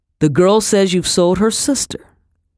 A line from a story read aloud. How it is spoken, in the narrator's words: Colonel Reagan said